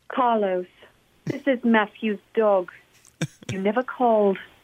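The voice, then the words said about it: Sophisticated-sounding accented dog character. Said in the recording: “Your dog has an accent? ... she's very sophisticated.”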